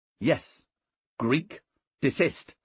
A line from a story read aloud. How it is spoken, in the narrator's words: Decimus said sharply